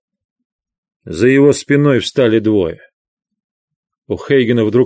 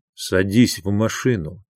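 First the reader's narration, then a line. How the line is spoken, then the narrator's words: Soft. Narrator (Russian): мягко проговорил Солоццо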